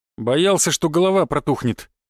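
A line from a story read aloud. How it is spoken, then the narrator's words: Wry snort. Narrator (Russian): хмыкнул я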